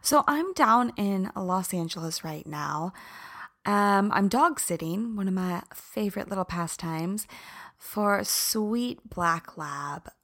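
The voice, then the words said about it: Groggy, raspy voice. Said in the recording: “I sound a little groggy ... Can you hear it in my throat? ... my voice sounds kind of sexy when it's raspy ... I'm actually really, really inflamed”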